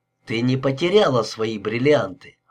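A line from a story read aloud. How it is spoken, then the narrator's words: Calm, firm reassurance. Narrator (Russian): успокоил Уилбур спокойно и твердо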